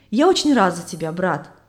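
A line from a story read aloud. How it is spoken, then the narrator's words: Plain. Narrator (Russian): ответил христианин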